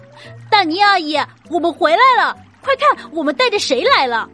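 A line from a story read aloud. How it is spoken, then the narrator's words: Calling out. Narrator (Chinese): 小梅花鹿边走边喊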